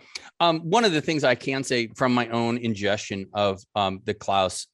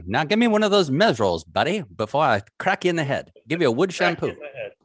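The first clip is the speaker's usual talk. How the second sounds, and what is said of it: Put-on Atlantic accent. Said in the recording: “With that fine Atlantic accent.”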